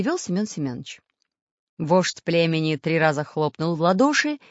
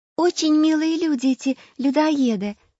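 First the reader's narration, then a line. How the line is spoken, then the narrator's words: Cheerful interjection. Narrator (Russian): радостно вставила Настенька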